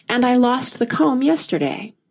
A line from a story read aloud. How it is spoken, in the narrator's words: the Queen said with a sigh